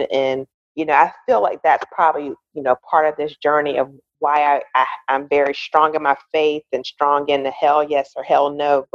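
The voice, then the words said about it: Country twang accent. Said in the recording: “my country twang”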